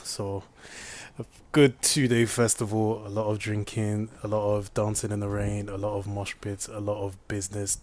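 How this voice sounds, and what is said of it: Voice sounding worn and strained. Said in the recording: “my voice is still in um, in recovery from being in the fields of a place called Lamel”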